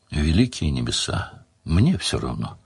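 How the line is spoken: Tired, forced smile. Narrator (Russian): устало отозвалась Делия, попытавшись, впрочем, улыбнуться

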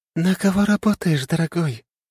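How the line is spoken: Tender asking voice. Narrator (Russian): Ласковым голосом спросила Сайон

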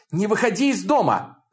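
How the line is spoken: Shouted. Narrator (Russian): закричала

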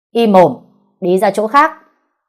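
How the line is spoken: Shouting, losing control. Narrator (Vietnamese): Bên ngoài, người đàn ông mặc thường phục bỗng có chút mất kiểm soát, quát lên

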